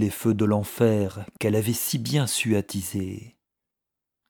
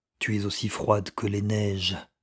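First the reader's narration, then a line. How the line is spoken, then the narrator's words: Astonished murmur. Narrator (French): murmura-t-il étonné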